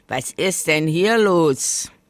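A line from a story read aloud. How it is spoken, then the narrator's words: Sudden booming voice. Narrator (German): polterte plötzlich eine Stimme im Laubhaufen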